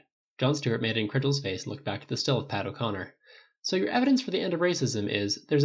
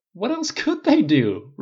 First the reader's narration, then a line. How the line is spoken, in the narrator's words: Rhodey answered, forcing the words out, breathless with laughter